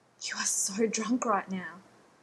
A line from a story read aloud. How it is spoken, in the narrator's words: Rodney said breathlessly